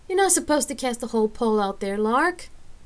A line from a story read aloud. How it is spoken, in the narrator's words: Rain called out with a pained expression